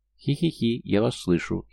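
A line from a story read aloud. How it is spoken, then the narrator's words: Giggling. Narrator (Russian): хихикнула Эмарис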